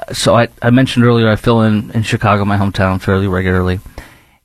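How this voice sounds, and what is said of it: Chicago accent. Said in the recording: “I was born and raised in Chicago in the suburbs, and you can probably tell from my accent”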